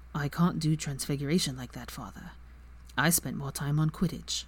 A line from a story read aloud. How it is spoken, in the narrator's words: Draco flushed and then said quietly